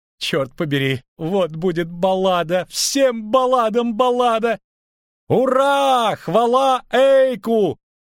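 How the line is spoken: Shout from crowd. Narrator (Russian): крикнул кто-то из группы лучников Недомира

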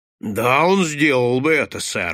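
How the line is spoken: Exclaiming. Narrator (Russian): воскликнул сержант

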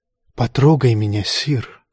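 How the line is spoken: Whispering in ear. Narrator (Russian): прошептала она ему на ухо

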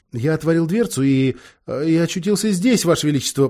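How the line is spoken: Babbled timidly. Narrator (Russian): пролепетал Эдмунд

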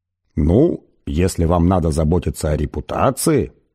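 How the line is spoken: Calm. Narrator (Russian): спокойно произнес Форд

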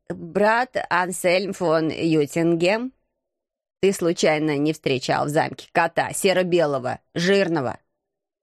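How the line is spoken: Stern question. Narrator (Russian): строго спросил кто-то

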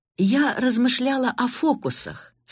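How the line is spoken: Plain. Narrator (Russian): сказала она

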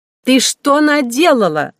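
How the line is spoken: Shouting after someone. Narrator (Russian): закричала сеньора вслед убежавшей карлице

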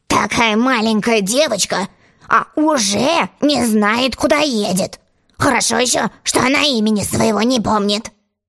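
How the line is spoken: Grumbling gentleman. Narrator (Russian): Джентльмен, сидевший напротив Алисы, проворчал

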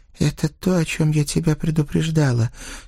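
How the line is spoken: Hoarse reply. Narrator (Russian): сипло ответила Катя

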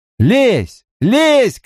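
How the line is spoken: Shout. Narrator (Russian): кричал я

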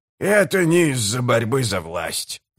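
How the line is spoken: Grumbling. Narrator (Russian): проворчал Гиборик

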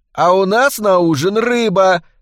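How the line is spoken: Yelled. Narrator (Russian): заорала Палмер

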